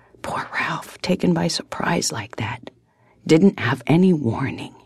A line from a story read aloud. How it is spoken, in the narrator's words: he whispered hoarsely